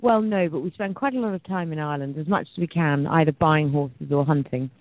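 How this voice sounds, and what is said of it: British English accent. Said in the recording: “you're going to love the accent ... From the UK ... I'm from Dorset”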